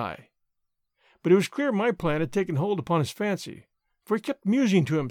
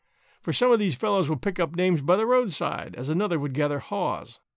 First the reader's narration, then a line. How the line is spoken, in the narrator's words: cries the lawyer, twinkling